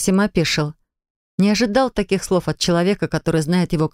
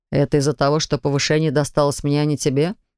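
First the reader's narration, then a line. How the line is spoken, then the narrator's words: Dry snort. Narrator (Russian): хмыкнул друг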